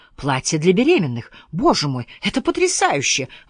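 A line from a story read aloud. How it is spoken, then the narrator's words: Exclaimed. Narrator (Russian): воскликнула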